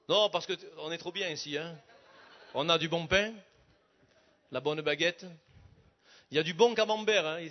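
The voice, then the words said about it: Southern French accent. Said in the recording (French): “Enfin, dans le sud, parce que vous avez entendu l'accent.”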